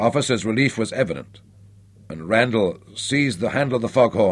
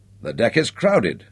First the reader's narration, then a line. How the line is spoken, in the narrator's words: exclaimed